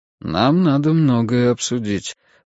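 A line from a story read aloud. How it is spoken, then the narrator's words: Calm. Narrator (Russian): произнес он все так же спокойно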